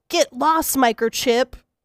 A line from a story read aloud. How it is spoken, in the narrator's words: Andy yells